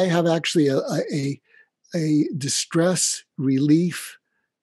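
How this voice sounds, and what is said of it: Usual voice. Nothing is said of it.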